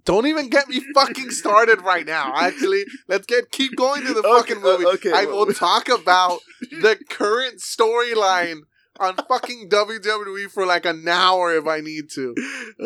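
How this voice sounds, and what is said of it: Yelling, loud passionate speech. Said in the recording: “Sorry for yelling.”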